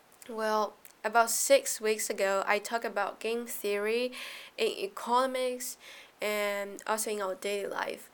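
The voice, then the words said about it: Thick, sleepy, sick-sounding voice. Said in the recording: “I'm still so sick now, so my voice is a little bit like sticky and also sleepy”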